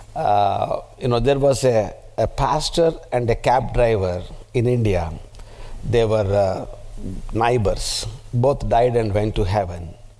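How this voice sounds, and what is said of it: Speaks with a noticeable foreign accent. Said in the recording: “I want that you should get used to my accent ... Sometimes you might miss my accent”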